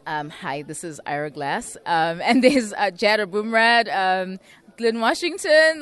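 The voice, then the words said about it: Imitation of Ira Glass. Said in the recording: “I do Ira Glass's voice as well ... it's not great ... It's not a great accent ... Let me hear your Ira Glass”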